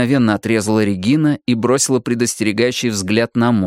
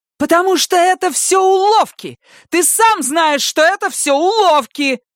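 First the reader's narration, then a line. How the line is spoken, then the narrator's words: Furious yelling. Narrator (Russian): заорала Регина со всей яростью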